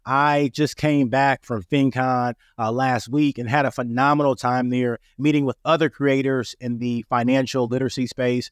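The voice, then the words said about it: Raspy voice from a cold. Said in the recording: “my voice sounds a little bit raspy. I am overcoming a cold... I still got a little bit of raspiness in my voice”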